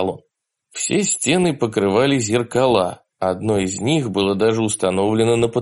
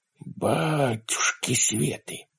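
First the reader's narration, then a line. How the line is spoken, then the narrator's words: Muttered. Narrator (Russian): пробормотал Ларри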